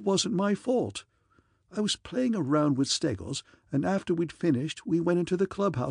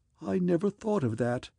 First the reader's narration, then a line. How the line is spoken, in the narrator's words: he said gloomily